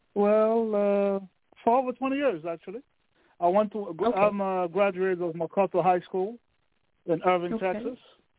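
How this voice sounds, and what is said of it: Thick foreign accent. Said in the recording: “it sounds like you're foreign ... I think I hear an accent ... I heard an accent that seemed pretty thick”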